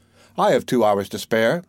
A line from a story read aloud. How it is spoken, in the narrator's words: said the giant